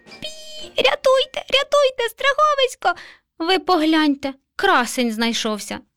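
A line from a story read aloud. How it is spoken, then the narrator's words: Terrified mouse squeak. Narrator (Ukrainian): Мишеня нажахано запищало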